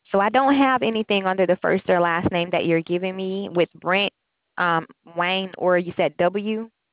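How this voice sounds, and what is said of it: Alabama Southern accent. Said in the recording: “I like your accent. You're from Alabama?... She has the same accent.”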